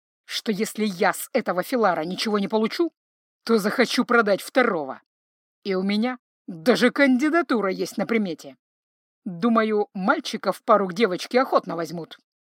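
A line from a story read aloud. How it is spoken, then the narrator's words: Angry. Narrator (Russian): зло ответил ему Павоне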